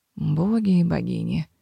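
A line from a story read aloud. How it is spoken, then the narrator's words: Tired grumbling from afar. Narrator (Russian): послышалось со стороны портала усталое ворчание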